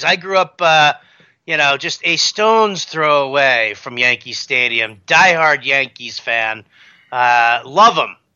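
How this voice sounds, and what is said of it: New York accent. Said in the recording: “has an accent ... usually that means he's a New York Yankees fan”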